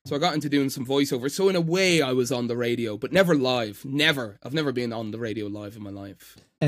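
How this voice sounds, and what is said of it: Irish accent. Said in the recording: “You could still tell I'm Irish ... Irish people don't really pronounce TH sounds”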